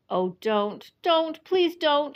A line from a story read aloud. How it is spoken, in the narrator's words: shouted Edmund